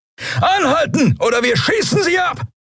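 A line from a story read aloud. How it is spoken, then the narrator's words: Bellowing. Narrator (German): brüllte jemand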